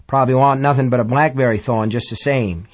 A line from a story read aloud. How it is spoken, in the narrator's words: he said